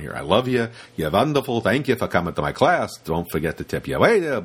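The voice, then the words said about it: Put-on Yiddish accent. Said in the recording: “it's like going to the Yiddish accent there”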